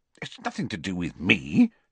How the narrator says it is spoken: said Harry indignantly

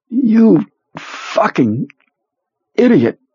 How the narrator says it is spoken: Perlmutter gasped

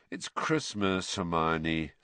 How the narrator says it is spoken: said Harry lazily

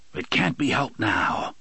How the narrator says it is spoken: the gunslinger said in his hoarse voice

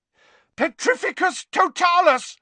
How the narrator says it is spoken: yelled Harry, struggling to cling on to the smooth, soaked surface of the island

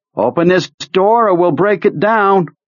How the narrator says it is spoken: he yelled

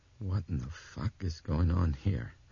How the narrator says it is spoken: he asked in a soft, trembling voice

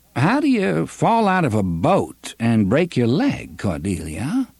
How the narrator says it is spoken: She laughed merrily

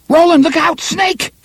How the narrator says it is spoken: Cuthbert screamed

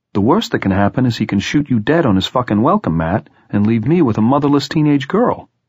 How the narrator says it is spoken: Tom said sharply

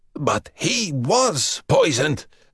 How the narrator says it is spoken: Dragozani rasped

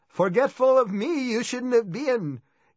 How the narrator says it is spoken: Gee screamed, sounding like Yoda in the Star Wars movies

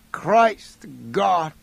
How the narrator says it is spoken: he moaned

